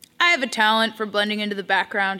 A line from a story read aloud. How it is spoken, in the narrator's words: says